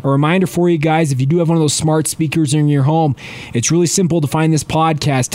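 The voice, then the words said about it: Weak, congested voice from a cold. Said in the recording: “pardon my voice. It hasn't been necessarily as strong today as it is in the past. Dealing with a little bit of a head cold that's really affected my voice”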